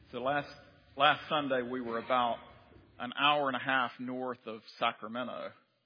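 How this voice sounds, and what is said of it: North Carolina accent. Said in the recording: “my accent ... I grew up over in Lexington, North Carolina, and that explains why I talk like this”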